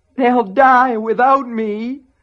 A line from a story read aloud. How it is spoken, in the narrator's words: the gaunt thing moaned